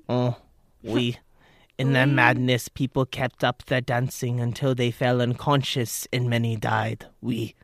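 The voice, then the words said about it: Put-on French accent. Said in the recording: “in an accent. ... It was French ... Oh, that was pretty good.”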